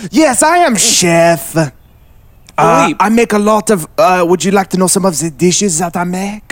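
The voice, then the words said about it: French accent. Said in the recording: “you have a wonderful French accent”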